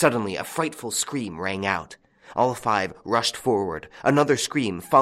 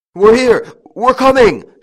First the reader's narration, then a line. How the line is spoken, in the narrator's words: shouted the eldest